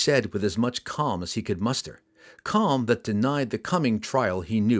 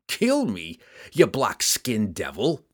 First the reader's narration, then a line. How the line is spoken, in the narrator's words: he roared